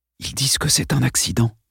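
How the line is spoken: Whispered. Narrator (French): chuchota Dale

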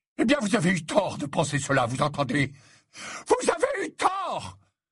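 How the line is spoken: Shouting. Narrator (French): Il avait hurlé ce dernier mot

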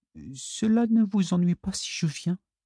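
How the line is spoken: Hesitant little-girl voice. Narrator (French): demanda-t-elle d'une voix hésitante de petite fille que Floyd ne lui connaissait pas

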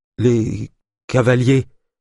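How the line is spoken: Stammered. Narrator (French): bredouilla-t-elle

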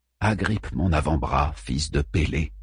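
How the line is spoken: Said in low voice. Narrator (French): dis-je à voix basse

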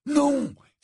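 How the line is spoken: Delighted exclamation. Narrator (French): s'exclama Ron d'une voix réjouie

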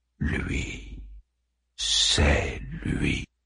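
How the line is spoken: Monster murmuring. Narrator (French): murmura le monstre

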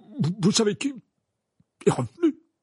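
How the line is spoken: Stammered. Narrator (French): balbutia-t-il

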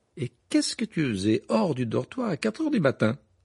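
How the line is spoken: Astonished exclamation. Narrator (French): s'exclama Bill avec stupéfaction

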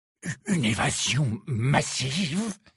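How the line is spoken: Hoarse repeating. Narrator (French): avait répété le Premier ministre d'une voix rauque

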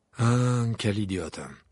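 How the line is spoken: Sighing. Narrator (French): soupira le professeur Chourave

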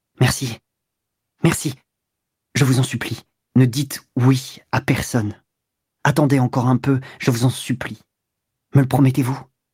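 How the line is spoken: Troubled, puzzled murmur. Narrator (French): Elle murmura, un peu troublée et sans comprendre ce qu'il voulait

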